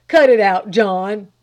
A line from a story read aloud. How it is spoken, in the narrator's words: he thundered at the coach dog